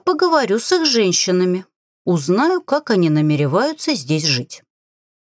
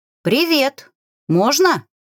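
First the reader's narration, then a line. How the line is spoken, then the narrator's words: Shouted through open door. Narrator (Russian): прокричала в открытую дверь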